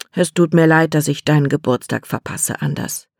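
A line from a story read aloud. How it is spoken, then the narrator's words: Father sighing. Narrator (German): seufzte Papa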